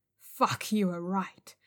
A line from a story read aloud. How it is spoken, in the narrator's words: she said through gritted teeth